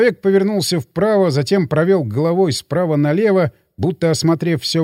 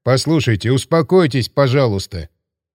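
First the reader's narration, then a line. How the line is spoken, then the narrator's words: Plain. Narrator (Russian): сказал Клочко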